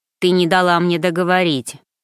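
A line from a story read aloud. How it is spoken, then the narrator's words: Rude interruption. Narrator (Russian): грубо оборвал девушку кузен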